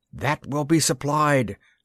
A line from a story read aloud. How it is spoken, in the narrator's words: cried a dozen voices